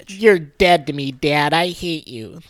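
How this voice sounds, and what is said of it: Imitates a sulky kid's voice. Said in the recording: “That was my impression.”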